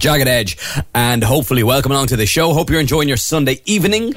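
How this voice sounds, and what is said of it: Hoarse, deeper than usual voice. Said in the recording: “I'm feeling a little hoarse today. You can probably tell my voice sounds a little deeper than normal”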